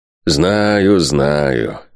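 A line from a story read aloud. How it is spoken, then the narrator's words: Grumbling. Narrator (Russian): проворчал воевода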